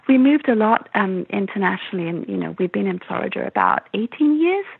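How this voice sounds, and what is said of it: English accent. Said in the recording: “I'm originally from England. You can probably tell ... from my accent. I love we, your accent.”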